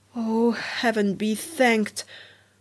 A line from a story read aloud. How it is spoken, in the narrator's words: sighed the duckling